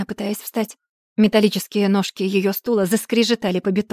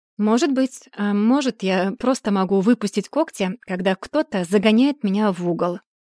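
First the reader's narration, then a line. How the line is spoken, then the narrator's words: Even tone. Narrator (Russian): ровным тоном предположила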